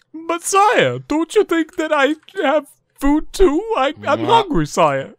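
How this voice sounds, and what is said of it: Imitates cartoon talking dog's voice. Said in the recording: “a talking dog named Shu by some fucking really dumb wannabe comedian trying to sound funny ... that's kind of sounds like that, and it's horrible ... You do a good impression.”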